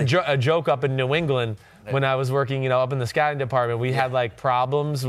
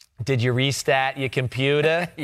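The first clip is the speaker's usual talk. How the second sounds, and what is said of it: Put-on Boston accent. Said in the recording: “their Boston accent”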